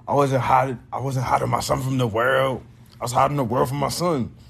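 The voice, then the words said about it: Poor imitation of another person's voice. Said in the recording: “What was that voice? I did not sound like, I don't know who that was. That was not Drake.”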